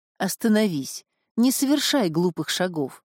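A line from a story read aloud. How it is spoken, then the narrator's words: Surprisingly calm. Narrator (Russian): Исидор сказал неожиданно спокойным тоном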